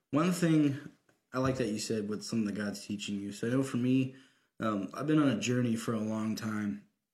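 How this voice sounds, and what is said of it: Slightly off, congested voice. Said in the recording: “my voice is a little weird because I've been going up and down with mucus everywhere”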